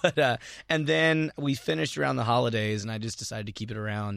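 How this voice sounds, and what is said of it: Ragged, hoarse voice. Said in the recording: “my voice sounds kind of ragged right now because I'm my character is a screamer”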